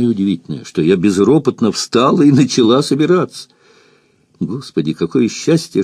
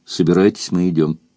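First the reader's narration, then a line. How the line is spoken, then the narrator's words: Stern. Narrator (Russian): строго сказал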